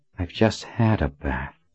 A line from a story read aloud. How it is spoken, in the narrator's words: Colin said under her breath